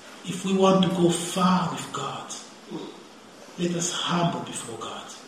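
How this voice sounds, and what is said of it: Speaks with a noticeable accent. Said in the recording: “You get even annoyed by my accent”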